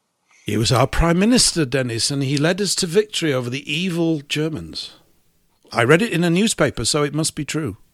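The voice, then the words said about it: Sarcastic, cynical delivery. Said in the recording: “I'm being sarcastic, cynical and disgusting all at the same time.”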